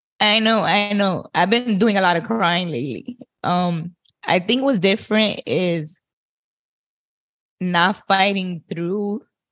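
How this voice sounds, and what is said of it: Emotional, tearful voice. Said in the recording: “I don't know why I'm getting emotional.”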